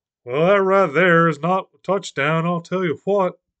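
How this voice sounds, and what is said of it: Texan cartoon character voice impression. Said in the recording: “I just turned into Hank Hill... my Hank Hill impression”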